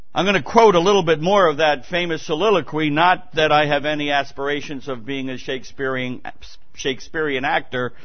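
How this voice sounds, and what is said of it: New York accent. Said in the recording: “My New York accent”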